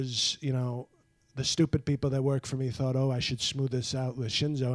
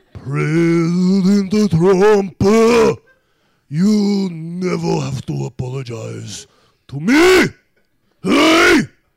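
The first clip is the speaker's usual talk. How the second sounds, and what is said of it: Imitates another person's voice. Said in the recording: “I do a great impression of you”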